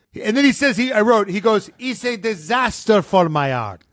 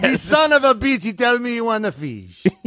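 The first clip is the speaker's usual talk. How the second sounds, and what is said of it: Imitating Luca's accented broken English. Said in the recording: “Luca, in his amazing accent”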